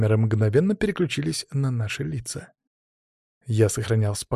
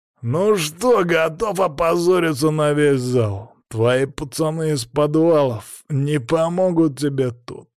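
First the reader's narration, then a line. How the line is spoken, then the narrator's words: Growl. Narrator (Russian): зарычал он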